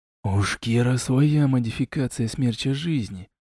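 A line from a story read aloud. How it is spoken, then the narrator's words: Whisper. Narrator (Russian): прошептал Лорак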